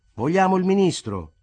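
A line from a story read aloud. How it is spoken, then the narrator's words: Group shouting. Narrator (Italian): gridarono dai banchi di sinistra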